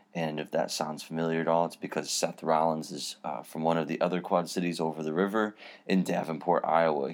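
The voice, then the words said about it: Voice a little off, strained. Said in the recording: “My voice is a little out of whack today because I attended the WWE Raw house show event last night”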